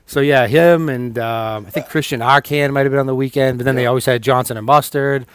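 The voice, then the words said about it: Boston accent. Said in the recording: “has like a thicker Boston accent than I do”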